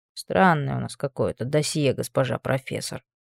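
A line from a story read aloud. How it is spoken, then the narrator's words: Calculated under-breath mutter. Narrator (Russian): пробурчал Анри себе под нос с точно рассчитанной громкостью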